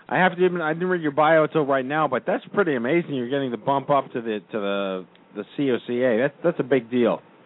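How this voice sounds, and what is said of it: Raspy, sick-sounding voice. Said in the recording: “Pardon my raspy sickness.”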